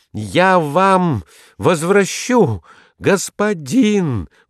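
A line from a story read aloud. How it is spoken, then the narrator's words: Exclaiming. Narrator (Russian): воскликнул он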